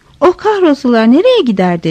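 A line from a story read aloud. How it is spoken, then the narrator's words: Plain. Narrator (Turkish): dedi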